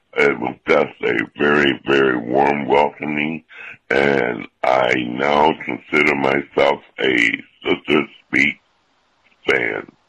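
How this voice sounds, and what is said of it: Very deep male voice. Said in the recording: “we love your deep voice ... I don't remember his voice being that ... Deep”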